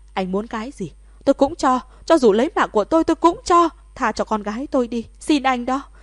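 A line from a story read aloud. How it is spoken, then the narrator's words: Frantic wailing. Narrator (Vietnamese): Thẩm Thất khóc thét điên cuồng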